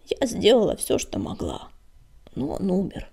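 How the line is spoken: Hoarse. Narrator (Russian): хрипло сообщила Щербатая

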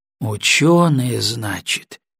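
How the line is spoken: Distrustful drawl. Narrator (Russian): Недоверчиво протянул Коротков

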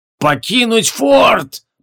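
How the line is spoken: Roaring. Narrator (Russian): проревел Ликур

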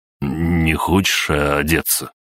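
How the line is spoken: Strained, dry-throated voice. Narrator (Russian): С трудом из-за пересохшего горла выдавил

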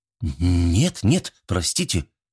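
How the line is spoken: Frightened. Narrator (Russian): сказала она испуганно

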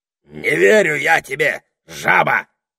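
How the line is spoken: Barked. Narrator (Russian): гаркнул Василиск

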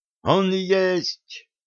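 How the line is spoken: Sudden cry. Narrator (Russian): вскрикнул Витарий

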